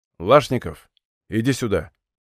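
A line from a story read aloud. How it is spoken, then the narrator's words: Quiet call. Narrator (Russian): негромко позвал он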